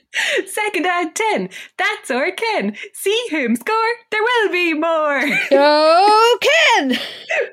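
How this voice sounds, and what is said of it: Cheerleader voice. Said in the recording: “putting on my best cheerleader voice”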